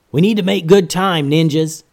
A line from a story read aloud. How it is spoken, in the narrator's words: yelled Master Momo